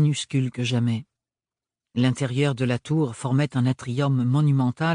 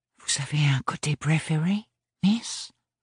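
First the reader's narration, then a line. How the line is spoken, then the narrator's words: Very quiet murmur. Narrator (French): murmura Ambroise aussi bas que possible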